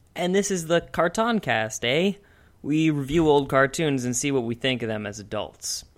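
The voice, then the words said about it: Put-on Canadian accent. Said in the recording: “Don't ever make a Canadian accent again.”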